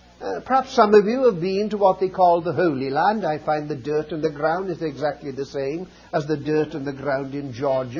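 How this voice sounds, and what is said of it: Welsh accent. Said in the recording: “As you know from my accent, I come from Wales.”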